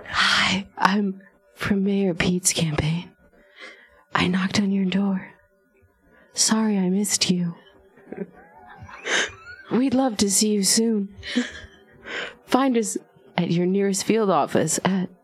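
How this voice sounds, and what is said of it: Soft whispery ASMR-style voice. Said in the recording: “I'm gonna read it in a ... in a pathetic voice ... I was gonna read it in an ASMR voice.”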